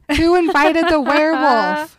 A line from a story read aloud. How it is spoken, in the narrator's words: She yells into the crowd